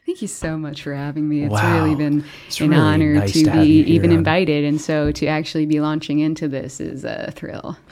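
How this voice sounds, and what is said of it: Muted, even, flat radio voice. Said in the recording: “my character voice ... So muted. Just so even and flat for radio.”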